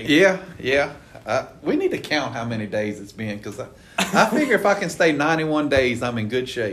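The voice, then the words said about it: Southern US (Louisiana) accent. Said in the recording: “is also a Louisiana native, like I am ... the Southern accent”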